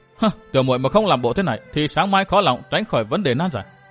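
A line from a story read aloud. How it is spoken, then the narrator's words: Bursting into laughter. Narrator (Vietnamese): Dương Tử Diệm bật cười ... nói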